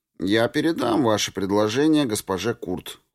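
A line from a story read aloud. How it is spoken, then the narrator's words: Cold. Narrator (Russian): холодно произнес я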